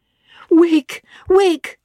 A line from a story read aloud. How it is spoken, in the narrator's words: I cried